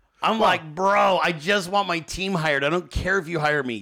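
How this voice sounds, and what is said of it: Damaged, strained voice. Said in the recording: “why is ... voice all fucked up? I promise it's not from just doing 2-hour shows ... that's why my voice is fucked”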